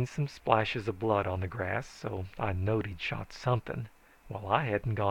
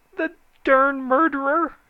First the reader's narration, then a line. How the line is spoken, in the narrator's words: he howled